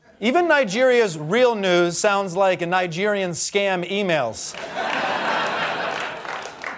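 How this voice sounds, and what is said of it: Usual voice. Nothing is said of it.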